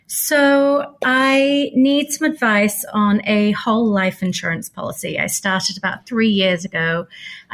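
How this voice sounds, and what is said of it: British accent. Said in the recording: “we got an accent for you ... you have a little of British in you”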